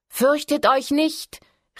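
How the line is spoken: Called out. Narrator (German): rief sie

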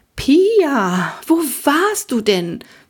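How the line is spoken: Excited question. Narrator (German): fragte Frau Winkler aufgeregt

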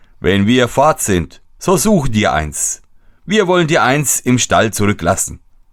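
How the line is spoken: Laughing group speaking. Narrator (German): Die anderen lachten und sprachen

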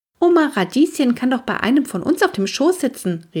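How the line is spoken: Calling out. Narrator (German): rief Henry

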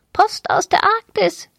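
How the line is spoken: Croaking small parrot. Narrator (German): krächzte der kleine Papagei

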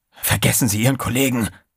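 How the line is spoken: Hissing. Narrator (German): zischte Trey

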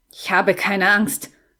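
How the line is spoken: Growled. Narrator (German): knurrte

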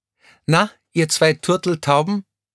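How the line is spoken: Nearby call. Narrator (German): rief jemand in der Nähe

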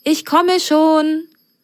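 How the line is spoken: Friendly call from behind gate. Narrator (German): rief eine freundliche Stimme hinter der Pforte

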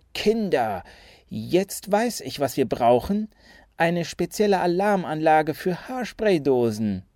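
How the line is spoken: Excited hiss. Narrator (German): Aufgeregt zischte

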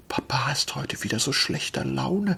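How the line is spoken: Child's whisper. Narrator (German): flüsterte die Kleine

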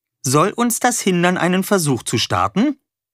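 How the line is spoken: Cheerful. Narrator (German): sagte Wolle fröhlich

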